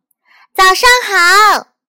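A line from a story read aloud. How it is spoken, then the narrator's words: Loud shout. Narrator (Chinese): 他大声叫道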